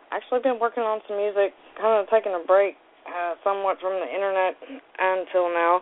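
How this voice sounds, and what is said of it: Hoarse, strained voice. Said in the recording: “Losing my voice, been screaming at kids and the dog”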